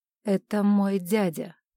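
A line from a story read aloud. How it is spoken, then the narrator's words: Curt, through gritted teeth. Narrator (Russian): сквозь зубы коротко объяснил Оуэн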